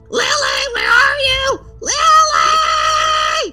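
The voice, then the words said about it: Panicked screaming voice. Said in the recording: “Stop screaming ... You can actually hear, like, this... panic. Like, he has actually gone up into a full-on panic at this point.”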